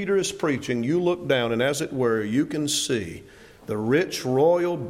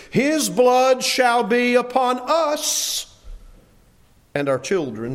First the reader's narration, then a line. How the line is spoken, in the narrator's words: cried out and said